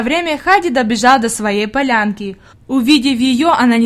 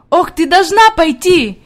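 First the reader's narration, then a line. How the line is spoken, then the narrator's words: Shouting while moving. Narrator (Russian): кричала она на ходу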